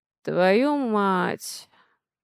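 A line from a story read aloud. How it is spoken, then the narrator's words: Muttering under breath. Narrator (Russian): бормочет Алекс себе под нос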